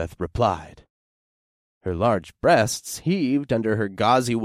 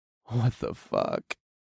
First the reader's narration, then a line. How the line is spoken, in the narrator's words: I sighed